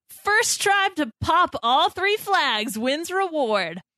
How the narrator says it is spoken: kicks things off and yells

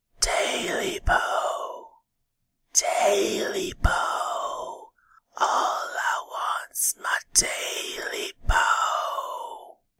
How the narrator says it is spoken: closer to the house now, the whisper

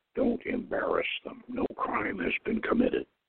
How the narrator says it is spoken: From beside him, Mahud muttered

